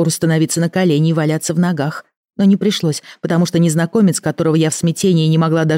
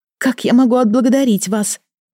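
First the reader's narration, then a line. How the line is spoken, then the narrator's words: Babbling. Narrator (Russian): Лепетала я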